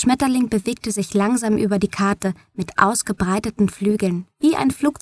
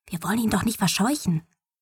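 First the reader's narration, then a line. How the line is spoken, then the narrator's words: Whisper. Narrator (German): flüsterte Mom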